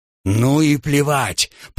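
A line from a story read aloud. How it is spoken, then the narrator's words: Growled. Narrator (Russian): прорычал он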